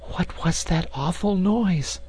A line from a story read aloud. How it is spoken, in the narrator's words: she whispered, shrinking close to him